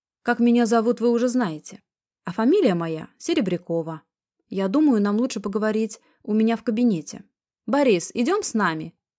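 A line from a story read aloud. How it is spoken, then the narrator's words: Shout. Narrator (Russian): крикнула она широкоплечему мужчине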